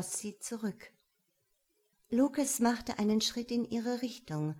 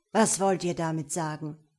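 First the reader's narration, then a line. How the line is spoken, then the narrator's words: Irritated growl. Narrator (German): knurrte Lucas ungehalten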